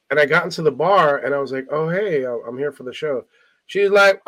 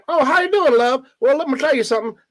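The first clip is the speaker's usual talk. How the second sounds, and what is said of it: Put-on Southern hee-haw accent. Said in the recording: “these people had like hee-haw accents. They had like Southern. ... Why the Dixieland accent?”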